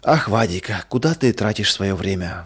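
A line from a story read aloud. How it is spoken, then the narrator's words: Sighing. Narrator (Russian): вздохнула мама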